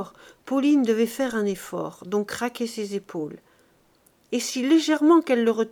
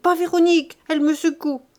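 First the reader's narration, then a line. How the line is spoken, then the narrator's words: Shouting. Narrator (French): criait-il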